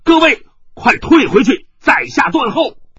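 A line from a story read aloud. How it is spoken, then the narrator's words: Loud shout. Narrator (Chinese): 李洛阳在院外大声的呼道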